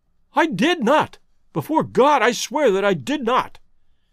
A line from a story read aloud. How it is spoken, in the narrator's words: cried our wretched prisoner